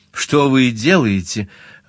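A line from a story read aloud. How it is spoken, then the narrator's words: Frightened laugh. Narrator (Russian): она испуганно засмеялась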